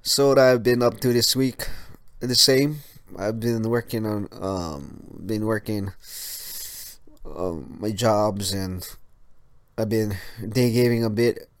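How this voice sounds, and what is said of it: Congested, sick-sounding voice. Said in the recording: “my nose I have to catch my runny nose and stuff ... if I sound sick, I'm not sick. It's just my allergies”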